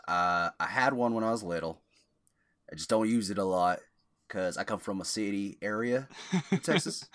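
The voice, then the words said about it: Texas accent. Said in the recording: “I don't really pull out my Texas accent that much, but here it is. I do have a Texas accent.”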